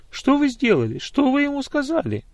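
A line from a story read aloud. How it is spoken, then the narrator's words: Agitated questioning. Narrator (Russian): Взволнованно спрашивала она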